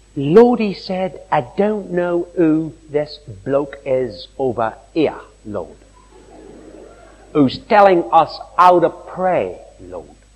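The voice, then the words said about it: Put-on Cockney accent. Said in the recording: “With a Cockney accent.”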